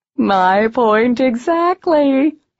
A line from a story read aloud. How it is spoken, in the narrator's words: he said, with an eerie cackle